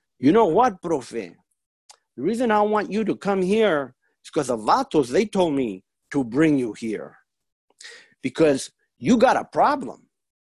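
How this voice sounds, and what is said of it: Imitated prisoner's accent. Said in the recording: “in his accent”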